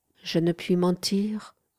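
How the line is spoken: Soft reply after pause. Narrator (French): répondit-elle doucement, après une légère pause

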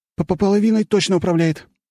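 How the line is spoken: Almost shouted. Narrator (Russian): едва не выкрикнул

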